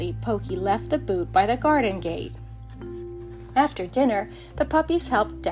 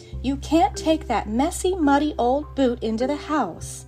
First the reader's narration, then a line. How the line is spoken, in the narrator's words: His mother shook her head and said firmly